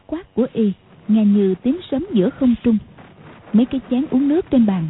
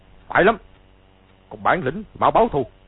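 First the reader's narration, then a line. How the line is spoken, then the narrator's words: Shout. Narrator (Vietnamese): Từ Ân quát lên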